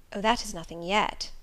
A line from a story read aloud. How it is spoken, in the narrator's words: I muttered within